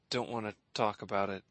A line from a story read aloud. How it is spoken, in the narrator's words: he mumbled